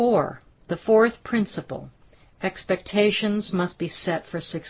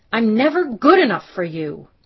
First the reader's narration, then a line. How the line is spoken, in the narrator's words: Shannon was tight-lipped until she blurted out